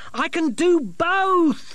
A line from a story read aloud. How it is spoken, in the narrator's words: Masklin shouted after her, at the same time